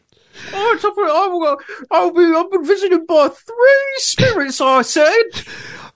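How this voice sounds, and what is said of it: Americanized working-class British accent. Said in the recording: “why does Scrooge have a working class accent? ... I think this is what Americans think British people sound like.”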